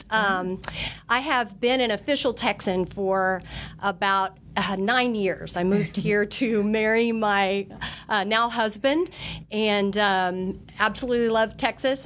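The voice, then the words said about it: Slight Southern twang. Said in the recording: “a little twang. ... And a little twang. Well, I'm originally from Oklahoma”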